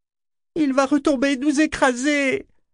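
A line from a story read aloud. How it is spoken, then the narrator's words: Moaning. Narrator (French): gémit Selden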